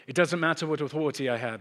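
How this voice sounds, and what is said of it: Put-on English accent. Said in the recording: “As long as I talk in an English accent, you will all believe everything that I tell you from this point on. So from now on, I will continue to speak in this accent”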